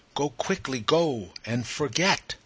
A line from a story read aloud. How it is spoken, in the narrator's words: the poppy on her breast, with drooping head uplifted, softly cried